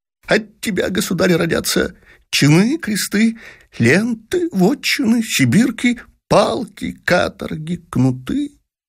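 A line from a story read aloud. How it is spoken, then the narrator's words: Jester's plaintive mumble. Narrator (Russian): Шут плачевным тоном забормотал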